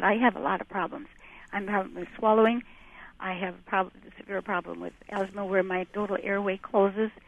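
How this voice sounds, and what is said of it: Weak, impaired voice. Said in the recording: “my voice has really gone to the tubes here ... my left vocal cord is paralyzed”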